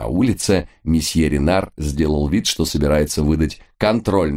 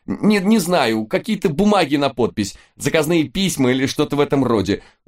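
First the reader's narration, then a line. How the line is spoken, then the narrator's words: Near-shrieking man. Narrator (Russian): уже практически визжал мужчина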